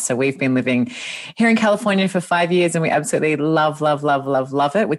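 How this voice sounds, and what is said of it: Australian accent. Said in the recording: “you can hear from my voice and my accent that I'm not from here. I'm Australian originally”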